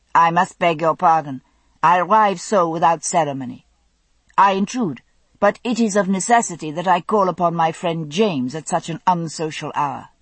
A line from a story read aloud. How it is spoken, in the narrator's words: he said, in thickly accented French